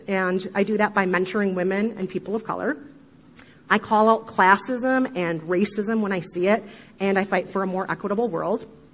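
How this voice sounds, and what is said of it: Midwestern American accent. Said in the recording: “the sound of my horrible Midwestern accent”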